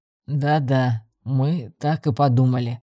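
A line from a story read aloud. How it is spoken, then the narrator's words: Young man mumbling. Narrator (Russian): пробурчал парень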